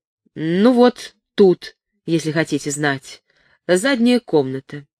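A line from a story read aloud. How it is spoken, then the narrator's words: Embarrassed, suddenly angry. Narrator (Russian): от стыда за такое упущение, голос ее вдруг прозвучал сердито, объявила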